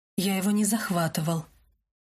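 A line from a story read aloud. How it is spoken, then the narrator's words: Soft gentle reply. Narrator (Russian): мягко ответил Себастьян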